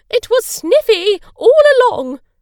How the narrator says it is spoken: shouted Mrs

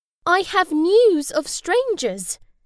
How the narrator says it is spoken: squeaked the weasel

